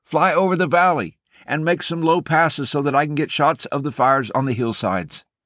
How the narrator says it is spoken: the cameraman shouted at the pilot

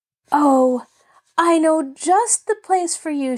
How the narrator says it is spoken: she cried

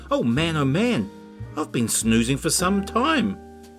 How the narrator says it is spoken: WE gasped

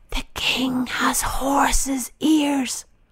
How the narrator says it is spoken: whispered

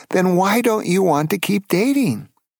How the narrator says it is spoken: She then pleaded

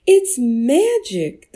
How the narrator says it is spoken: the villagers cried out

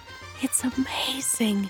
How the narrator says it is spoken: the queen whispered

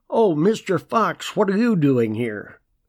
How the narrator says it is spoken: One of Desborough's officers called out to him

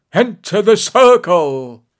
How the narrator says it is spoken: Preskar suddenly shrieked at Vreeland

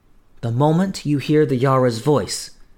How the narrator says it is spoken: said she

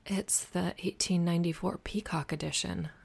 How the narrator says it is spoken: murmured

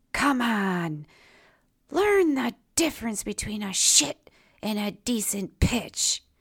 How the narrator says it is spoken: Michael, my brother, frustrated because of the foul tip, muttered a response close to his own chest

